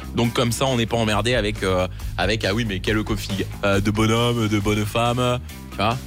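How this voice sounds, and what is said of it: Poorly done Marseille accent. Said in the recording (French): “accent marseillais qui revient pas, de temps en temps ... l'accent marseillais ... je le fais très mal ... j'écorche votre accent”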